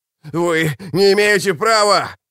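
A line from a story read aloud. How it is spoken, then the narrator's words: Loud wail. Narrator (Russian): завопил Рад Феннер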